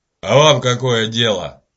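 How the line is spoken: Furious growl. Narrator (Russian): прорычал фермер, поворачиваясь к Питеру с такой яростью

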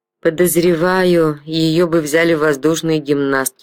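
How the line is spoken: Grumbled. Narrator (Russian): пробурчал Квист

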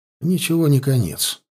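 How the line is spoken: Calm. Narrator (Russian): проговорил Теонард спокойно

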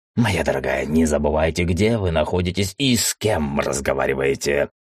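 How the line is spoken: Vicious growl. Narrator (Russian): злобно прорычал он

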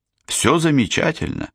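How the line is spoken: Plain. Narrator (Russian): ответил он

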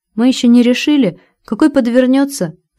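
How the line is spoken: Cheerful, smiling. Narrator (Russian): радостно заулыбался толстяк Виктор

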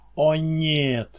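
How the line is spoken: Moaning. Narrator (Russian): простонал

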